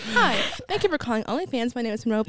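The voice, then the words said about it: Polite customer service voice. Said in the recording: “I have a customer service voice.”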